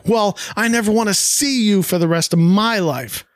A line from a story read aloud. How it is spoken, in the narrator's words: Bobby shouts back